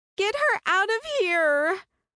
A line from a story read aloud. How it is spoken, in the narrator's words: the girl screeched